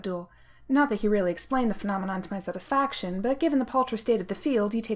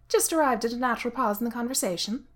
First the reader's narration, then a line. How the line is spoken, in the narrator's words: Abdul said cheerfully